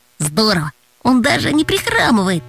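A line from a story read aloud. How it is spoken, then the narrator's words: Quiet reply. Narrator (Russian): тихонько отозвался Антон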